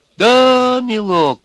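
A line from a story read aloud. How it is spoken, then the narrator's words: Sympathetic drawl, small old man. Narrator (Russian): сочувственно протянул маленький сухонький человечек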